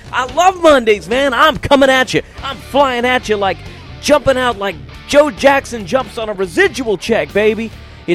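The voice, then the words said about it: Hyped-up radio DJ voice. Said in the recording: “to put on his DJ voice.”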